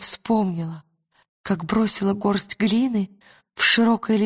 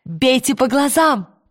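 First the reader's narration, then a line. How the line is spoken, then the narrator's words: Shout. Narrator (Russian): крикнула она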